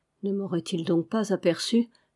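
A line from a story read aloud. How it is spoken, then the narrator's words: Frightened murmur, chattering teeth. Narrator (French): murmura-t-il, pendant que ses dents claquaient de frayeur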